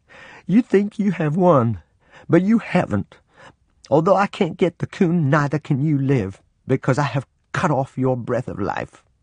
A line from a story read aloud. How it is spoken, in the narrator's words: Sobbing, said